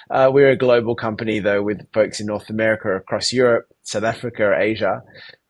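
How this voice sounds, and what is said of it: Australian accent. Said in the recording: “From my accent, you can probably tell I am based in Sydney, Australia.”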